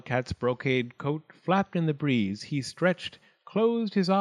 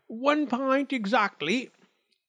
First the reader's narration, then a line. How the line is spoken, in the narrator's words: he shouted